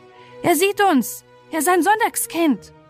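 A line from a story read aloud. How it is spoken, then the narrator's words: Angry call. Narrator (German): mit zornigen Gesichtern einer rief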